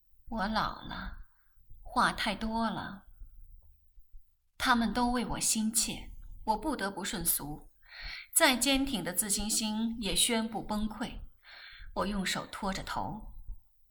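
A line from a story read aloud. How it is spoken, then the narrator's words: Weary sigh. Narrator (Chinese): 连母亲都叹口气，疲倦地说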